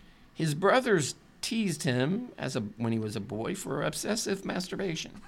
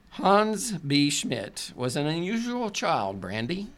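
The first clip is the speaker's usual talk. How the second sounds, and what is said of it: Put-on German accent. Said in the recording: “You have to have that German accent.”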